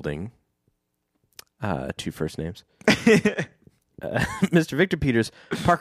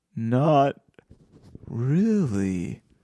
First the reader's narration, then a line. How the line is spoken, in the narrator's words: Ken answered slowly